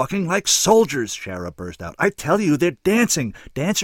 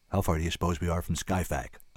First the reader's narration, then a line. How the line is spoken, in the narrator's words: I asked